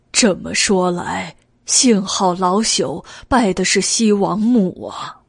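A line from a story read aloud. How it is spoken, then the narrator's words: Sighing. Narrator (Chinese): 王贵叹道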